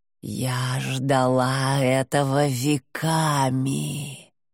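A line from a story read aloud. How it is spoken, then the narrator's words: Purring. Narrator (Russian): промурлыкала Тед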